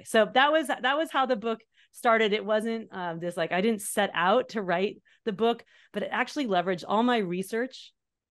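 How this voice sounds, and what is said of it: Excited, very fast speech. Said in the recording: “You can tell I'm excited. I think I've had too much coffee too. I'm like, I'm talking really fast.”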